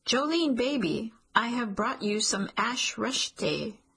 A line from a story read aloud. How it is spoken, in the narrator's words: a yelled